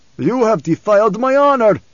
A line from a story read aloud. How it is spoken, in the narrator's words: Stilgar cried